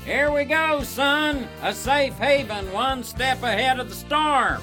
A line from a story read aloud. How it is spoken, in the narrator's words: Wallace yelled